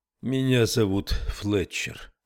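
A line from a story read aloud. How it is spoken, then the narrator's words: Sonorous, sad voice. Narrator (Russian): сказал он звучным и печальным голосом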